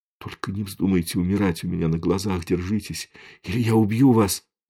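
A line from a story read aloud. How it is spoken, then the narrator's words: Whispered into ear. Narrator (Russian): прошептал он ей в ухо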